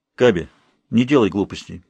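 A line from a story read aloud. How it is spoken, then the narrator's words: Restrained voice. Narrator (Russian): сдержанным голосом произнесла Тельма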